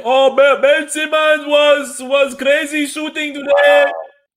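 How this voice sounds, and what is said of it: Imitates another person's voice and accent. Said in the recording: “I use Joel Embiid's voice ... use another man's accent for your jokes”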